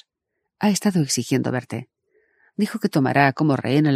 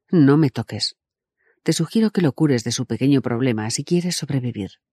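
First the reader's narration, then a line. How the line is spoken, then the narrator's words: Plain. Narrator (Spanish): dijo Lor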